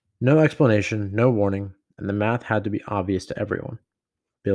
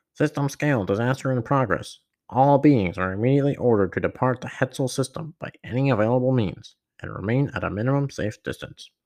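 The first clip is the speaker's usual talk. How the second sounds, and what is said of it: Robotic droid voice impersonation. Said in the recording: “I guess I should read that like a droid or something ... That was my best droid impersonation”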